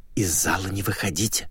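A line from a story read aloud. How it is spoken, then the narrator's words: Bold whisper. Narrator (Russian): начал смело шептать отважный администратор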